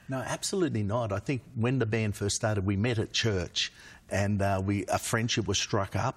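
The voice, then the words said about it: Australian accent. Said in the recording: “garage band from Australia ... The accent's still there.”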